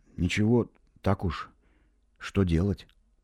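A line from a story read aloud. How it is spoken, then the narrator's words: Quiet, uncertain. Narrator (Russian): Я не знал, что ответить, и сказал негромко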